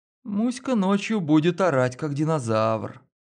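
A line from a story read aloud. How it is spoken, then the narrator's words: Sleepy mumble. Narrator (Russian): сонно пробормотала Лена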